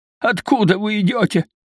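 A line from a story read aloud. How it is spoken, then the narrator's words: Hoarse question. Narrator (Russian): спросил он меня хриплым голосом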